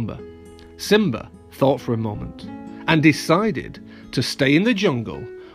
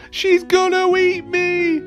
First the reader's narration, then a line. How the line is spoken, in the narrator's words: squealed Pumbaa